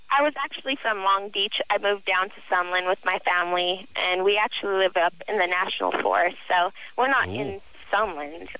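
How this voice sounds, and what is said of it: Childlike little girl voice. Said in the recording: “You have the little girl voice ... I've always had this little girl voice.”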